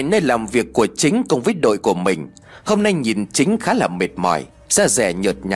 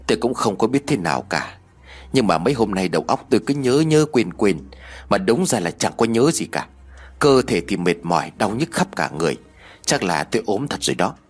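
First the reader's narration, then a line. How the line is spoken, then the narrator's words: Sighing reply. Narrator (Vietnamese): Chính thở dài rồi đáp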